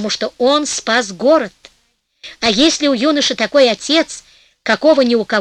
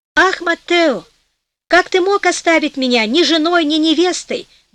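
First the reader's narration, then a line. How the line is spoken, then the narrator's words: Young woman's exclamation. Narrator (Russian): воскликнула девушка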